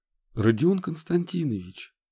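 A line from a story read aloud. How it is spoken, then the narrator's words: Quiet. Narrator (Russian): тихо сказал главврач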